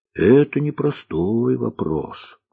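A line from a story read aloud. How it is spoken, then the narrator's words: Cook sighed. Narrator (Russian): вздохнула повариха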